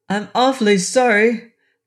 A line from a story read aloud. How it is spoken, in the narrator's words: cried the boy in answer